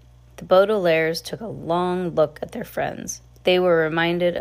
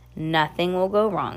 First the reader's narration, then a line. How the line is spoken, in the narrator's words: he said firmly